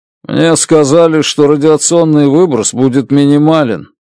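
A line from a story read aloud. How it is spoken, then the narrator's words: Gloomy. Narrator (Russian): мрачно сказал он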